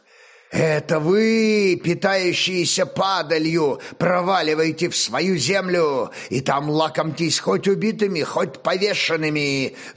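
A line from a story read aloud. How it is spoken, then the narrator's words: Growling. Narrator (Russian): зарычал Боскурт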